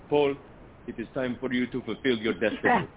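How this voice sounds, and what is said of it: Imitated Palestinian accent. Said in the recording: “my dad, who he's Palestinian, so this is my approximation of his accent”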